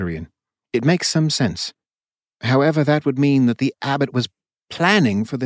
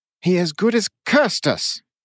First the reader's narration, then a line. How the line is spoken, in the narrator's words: Kurian yelled